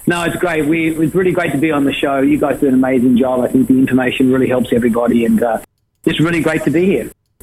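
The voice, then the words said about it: Australian accent. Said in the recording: “He sounds like he's got an Aussie or a New Zealand accent”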